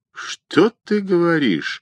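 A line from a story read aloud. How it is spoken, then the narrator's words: Joyful gasp. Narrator (Russian): радостно ахнул Виктор Константинович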